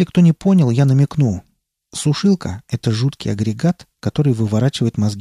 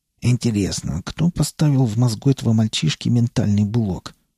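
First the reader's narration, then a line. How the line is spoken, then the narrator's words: Professor muttering. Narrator (Russian): бормотал профессор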